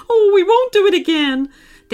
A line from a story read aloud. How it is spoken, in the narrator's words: they cried